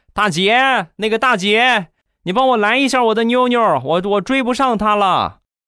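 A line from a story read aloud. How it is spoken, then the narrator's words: Man shouting. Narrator (Chinese): 那个大叔又喊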